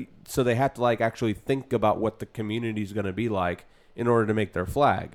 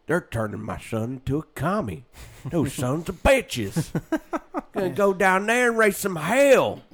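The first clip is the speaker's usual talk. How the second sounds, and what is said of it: Put-on Southern accent. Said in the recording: “Southern people with that accent”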